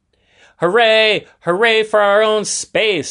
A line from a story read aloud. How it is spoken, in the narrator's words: shouted Adam and David